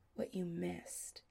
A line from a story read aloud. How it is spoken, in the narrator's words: says softly